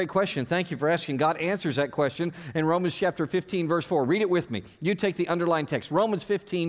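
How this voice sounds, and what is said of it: Usual voice. Nothing is said of it.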